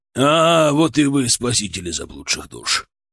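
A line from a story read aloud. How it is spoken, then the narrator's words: Snorting. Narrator (Russian): хмыкнул он, увидев нас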